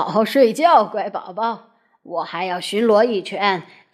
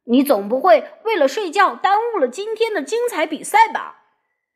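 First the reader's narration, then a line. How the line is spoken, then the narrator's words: Shout. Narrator (Chinese): 卡梅利多喊道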